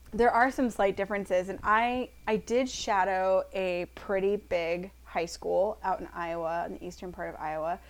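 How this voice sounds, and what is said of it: Strained, failing voice. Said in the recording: “I'm losing my voice. Horrible. It's just not good.”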